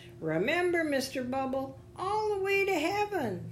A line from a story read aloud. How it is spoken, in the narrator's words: the little girl called out